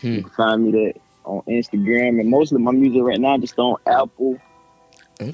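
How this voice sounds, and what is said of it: Southern US accent. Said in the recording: “Where exactly are you from with this accent, please? ... I'm from Florence, born and raised. South ... Kakalaki.”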